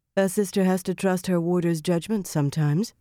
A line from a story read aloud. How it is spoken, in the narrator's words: Nynaeve said coolly